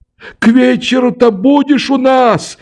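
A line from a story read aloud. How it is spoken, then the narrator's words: Shouting after someone. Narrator (Russian): закричала мне вслед Мавра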